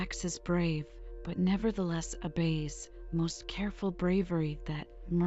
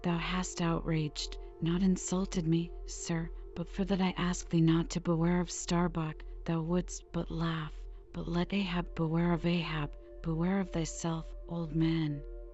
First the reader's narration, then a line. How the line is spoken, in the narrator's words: mastering his emotion, he half calmly rose, and paused for an instant and said